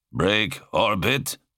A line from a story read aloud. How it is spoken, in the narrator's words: Malek grunted